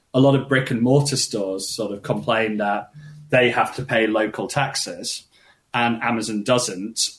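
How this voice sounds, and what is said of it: British accent. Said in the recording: “if you're not American, and you can guess from my accent, I'm not, Britain”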